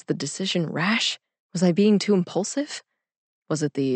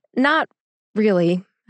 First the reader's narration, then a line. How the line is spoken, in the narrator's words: I said